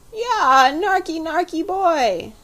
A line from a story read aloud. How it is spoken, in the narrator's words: howled the baby, giving way altogether